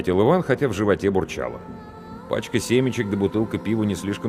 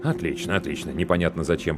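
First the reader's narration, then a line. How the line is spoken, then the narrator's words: Muttered. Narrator (Russian): пробормотал мужчина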